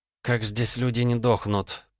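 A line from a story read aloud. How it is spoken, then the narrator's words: Through gritted teeth. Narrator (Russian): процедила Майя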